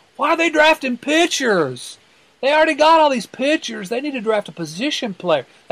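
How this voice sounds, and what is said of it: Mock voice of angry online fans. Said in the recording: “That's my imitation of the eggs on Twitter.”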